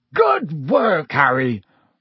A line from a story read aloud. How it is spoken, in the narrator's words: roared Hagrid